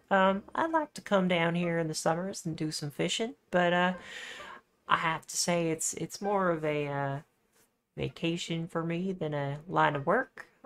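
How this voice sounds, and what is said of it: Strange, unusual accent. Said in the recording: “You have such a strange accent for someone of Sagageisa”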